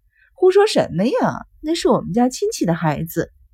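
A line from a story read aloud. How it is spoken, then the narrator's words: Laughing. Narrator (Chinese): 麻里子笑着说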